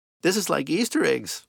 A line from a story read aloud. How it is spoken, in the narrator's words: Alana squealed